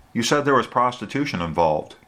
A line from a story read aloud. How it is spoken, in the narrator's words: Tricia said